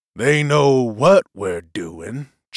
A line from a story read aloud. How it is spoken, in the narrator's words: chuckled Bailey